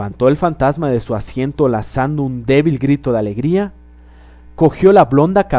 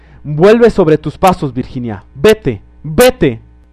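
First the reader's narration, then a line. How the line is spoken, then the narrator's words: Shouting. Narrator (Spanish): gritaban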